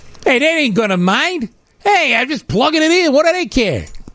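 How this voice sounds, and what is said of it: Put-on Jersey accent. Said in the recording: “That's my impression of him. ... That was a good impression. ... just Jersey”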